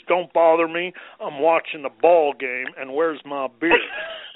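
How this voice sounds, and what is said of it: Impersonates a gruff husband's voice. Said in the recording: “That was very good. That was a great impersonation.”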